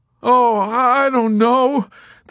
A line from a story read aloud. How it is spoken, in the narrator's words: the chaplain groaned